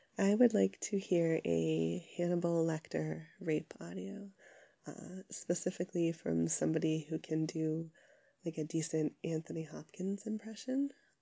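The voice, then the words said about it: Sick-sounding voice. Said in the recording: “my sick voice”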